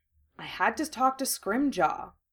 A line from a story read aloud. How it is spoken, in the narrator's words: Harry said evenly